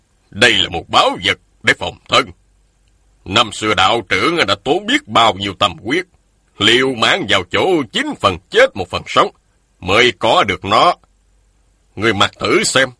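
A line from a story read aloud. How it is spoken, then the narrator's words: Stern voice. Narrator (Vietnamese): Một nhân thanh nghiêm giọng nói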